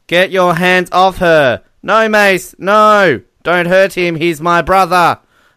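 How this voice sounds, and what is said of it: Impersonates movie characters' voices. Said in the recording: “I'm going to try and do my best impersonations here.”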